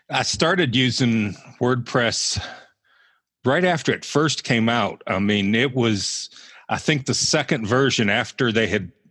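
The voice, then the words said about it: Mild Southern US accent. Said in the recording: “your somewhat Southern accent ... you don't really have like a Pittsburgh-ish accent. You've got these, you've maintained your Southern accent”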